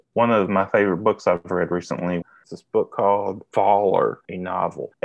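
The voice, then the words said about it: Southeast Kentucky accent. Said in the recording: “my Southeast Kentucky accent”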